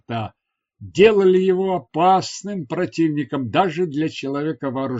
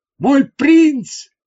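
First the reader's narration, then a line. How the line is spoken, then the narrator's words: Shout. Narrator (Russian): крикнул он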